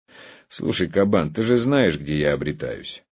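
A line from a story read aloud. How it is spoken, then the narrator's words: Tired. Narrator (Russian): устало произнес я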